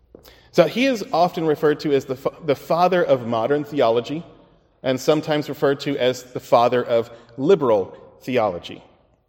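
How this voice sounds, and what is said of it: American English accent. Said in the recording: “I'm American ... my American accent.”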